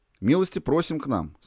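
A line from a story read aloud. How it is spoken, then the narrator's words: Plain. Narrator (Russian): сказал он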